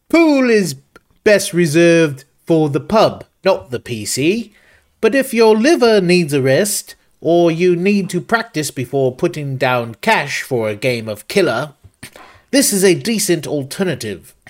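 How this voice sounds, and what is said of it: Put-on British accent. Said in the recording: “this is a UK review, so should I do it in an accent?”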